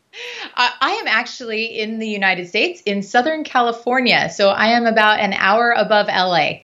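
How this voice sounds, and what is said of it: Non-UK accent. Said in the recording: “I'm picking up from your fantastic accent that you're not a native of the UK”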